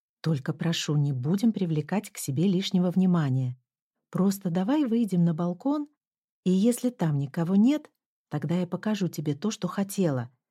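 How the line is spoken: Plain. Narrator (Russian): сказала я

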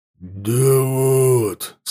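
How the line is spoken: Lying, growling voice. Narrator (Russian): соврал он рычащим голосом

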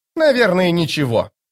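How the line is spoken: Snapping. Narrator (Russian): огрызнулась она

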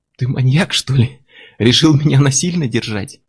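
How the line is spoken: Laughing. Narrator (Russian): Анна расхохоталась

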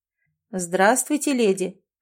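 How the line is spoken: Very pleasant voice. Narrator (Russian): произнес он настолько приятным голосом, что заставил полюбить свой голос с первых же звуков

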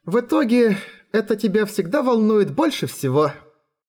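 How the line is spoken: Laughing. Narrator (Russian): рассмеялась Хора

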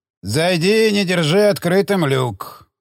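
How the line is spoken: Grumbled. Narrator (Russian): проворчал Элиос

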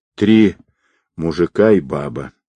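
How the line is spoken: Calm. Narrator (Russian): спокойно ответила Анна

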